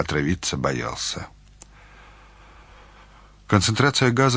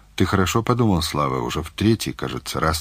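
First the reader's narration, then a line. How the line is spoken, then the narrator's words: Plain. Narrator (Russian): спросил Мазаев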